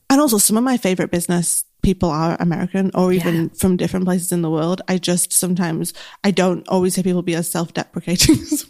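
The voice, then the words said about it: Strong Mancunian accent, fast speech. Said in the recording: “I'm very Mancunian. My accent is very strong. I speak very fast.”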